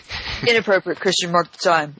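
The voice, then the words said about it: Gruff put-on character voice. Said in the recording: “That's my Brian daddy voice ... you said it so gruffly that now I'm doing the voice.”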